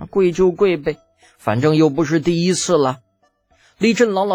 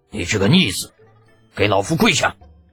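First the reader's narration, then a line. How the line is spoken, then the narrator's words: Angry bellow. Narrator (Chinese): 一声怒喝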